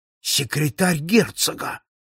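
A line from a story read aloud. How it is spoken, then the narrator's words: Exclaiming. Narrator (Russian): воскликнул Холмс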